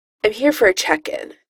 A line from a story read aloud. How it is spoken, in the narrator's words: the voice says curtly